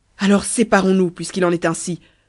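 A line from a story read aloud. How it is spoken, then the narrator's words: Yelling. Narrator (French): hurlai-je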